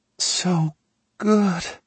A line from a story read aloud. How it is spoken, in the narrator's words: she groans